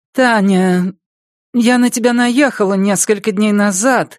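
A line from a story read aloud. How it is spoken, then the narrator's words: Forced-out reluctant words. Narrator (Russian): наконец выдавила она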